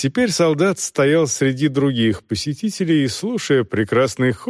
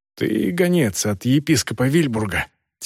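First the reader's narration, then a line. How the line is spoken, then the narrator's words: Quiet question. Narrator (Russian): тихо спросил монах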